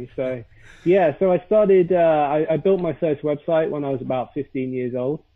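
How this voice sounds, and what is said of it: Posh British English accent. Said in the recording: “I am British with my beautiful British accent ... I'm I'm pretty posh as well”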